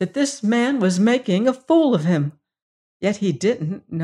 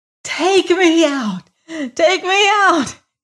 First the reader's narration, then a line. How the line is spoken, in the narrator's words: screamed